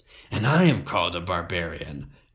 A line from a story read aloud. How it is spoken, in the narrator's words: grunted Grignr in a disgusted tone